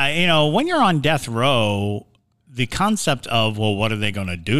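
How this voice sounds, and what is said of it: Usual voice. Nothing is said of it.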